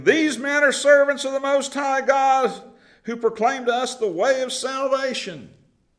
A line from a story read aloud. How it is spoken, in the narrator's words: This girl cried out saying